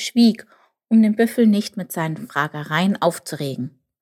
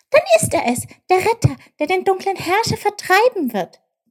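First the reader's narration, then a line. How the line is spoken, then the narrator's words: Excited call. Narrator (German): rief Tjilp aufgeregt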